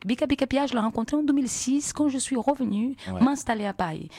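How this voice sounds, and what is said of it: Charming foreign accent in French. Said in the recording (French): “Quel français magnifique. ... Avec un accent à faire fondre les icebergs. Hein. Un accent sexy comme ça.”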